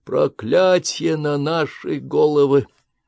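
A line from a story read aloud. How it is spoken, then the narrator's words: Moan. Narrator (Russian): простонал он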